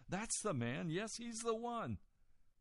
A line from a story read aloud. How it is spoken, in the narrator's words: she burst out laughing and said